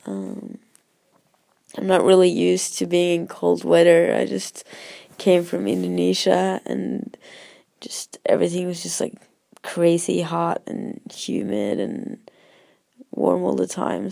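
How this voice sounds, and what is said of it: Hoarse voice from a cold. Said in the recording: “my voice is a bit bad, but I'm having a bit of a cold”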